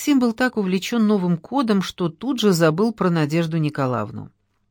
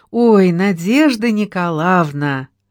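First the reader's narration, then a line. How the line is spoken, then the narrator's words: Joyful greeting. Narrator (Russian): радостно приветствовала она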